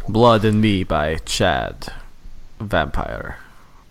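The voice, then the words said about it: Put-on vampire accent. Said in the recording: “That's the accent you're going with, huh? ... These accents?”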